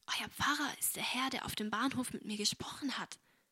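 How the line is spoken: Whispered. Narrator (German): flüsterte sie Agnes zu

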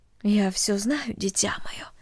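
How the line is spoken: Soft motherly voice. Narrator (Russian): тихо сказала мать

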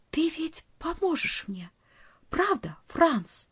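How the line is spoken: Whisper. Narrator (Russian): прошептала

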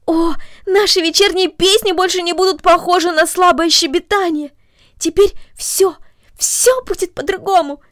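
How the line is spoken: Exclamation. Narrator (Russian): воскликнула она

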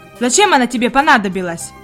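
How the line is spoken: Rough questioning servant. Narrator (Russian): грубо продолжал допрос слуга

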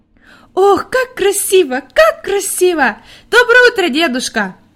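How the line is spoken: Joyful shout. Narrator (Russian): радостно кричала Хайди

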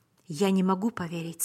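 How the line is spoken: Plain. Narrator (Russian): сказал я

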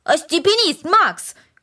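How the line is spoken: Shouted. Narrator (Russian): крикнул Дино

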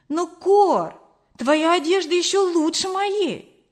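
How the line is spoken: Exclaiming. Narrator (Russian): воскликнула я

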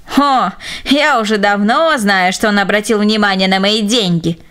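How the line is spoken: Spiteful old woman's giggle. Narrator (Russian): злобно хихикнула старушка

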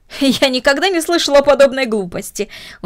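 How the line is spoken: Exclaimed. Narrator (Russian): воскликнула мисс Дорнер

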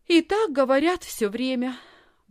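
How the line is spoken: Sighed. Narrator (Russian): вздохнула Лисхин

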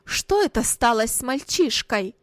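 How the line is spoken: Mother crying out angrily. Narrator (Russian): сердито вскричала мать

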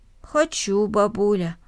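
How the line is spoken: Plain, child. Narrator (Russian): ответил мальчик

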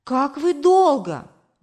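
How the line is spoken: Exclaiming. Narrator (Russian): воскликнула мама

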